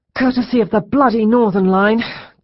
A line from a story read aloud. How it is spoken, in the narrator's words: gasped Liz